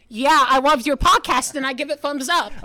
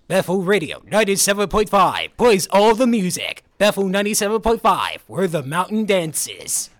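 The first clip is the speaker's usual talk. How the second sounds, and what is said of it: Radio announcer voice. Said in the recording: “you have a great radio voice. Could you give us a little demonstration of what your radio voice sounds like?”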